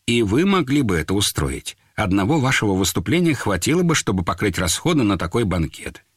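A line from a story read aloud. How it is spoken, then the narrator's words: Completely calm female reply. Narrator (Russian): Она ответила совершенно спокойно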